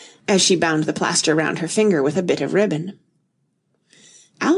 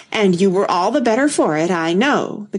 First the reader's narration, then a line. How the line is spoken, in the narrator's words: the Queen said triumphantly